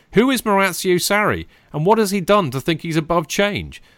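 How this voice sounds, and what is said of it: Ranty, worked-up reading voice. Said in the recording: “you read it in a very ranty style there ... I channeled my inner rant.”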